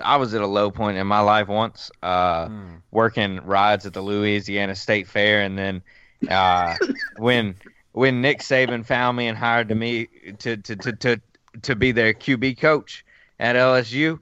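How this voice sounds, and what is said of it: Put-on Cajun accent. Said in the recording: “Now you're doing kind of a Cajun accent too ... It's getting more and more Cajun as we go.”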